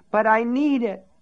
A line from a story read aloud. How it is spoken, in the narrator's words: Polly cried